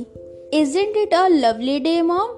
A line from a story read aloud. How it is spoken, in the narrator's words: Christine Ted said happily